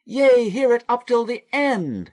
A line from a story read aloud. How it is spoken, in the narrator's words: cried Joseph